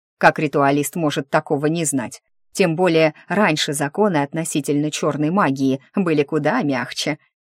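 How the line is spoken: Scoffing snort. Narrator (Russian): хмыкнул дух

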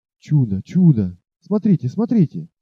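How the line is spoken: Excited joyful whispering hunters. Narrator (Russian): Взволнованно и радостно зашептали охотники

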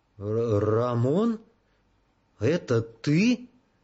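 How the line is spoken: Uncertain question. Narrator (Russian): спросил неуверенно

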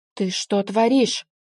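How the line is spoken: Roaring. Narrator (Russian): взревел он

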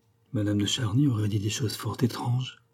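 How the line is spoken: Murmured. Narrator (French): murmura-t-elle

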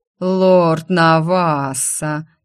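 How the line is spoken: Sudden drawling male voice. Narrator (Russian): тягуче протянул вдруг рядом мужской голос

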